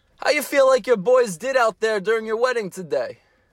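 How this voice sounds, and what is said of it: Put-on New Jersey accent. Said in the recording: “I feel like you're doing the same accent as me ... We're from the same part of the planet, and that's why we got the accents ... Jersey”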